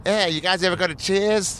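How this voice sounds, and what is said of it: Bad put-on Boston accent. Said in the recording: “Your Boston accent is literally the worst. ... It's not even close.”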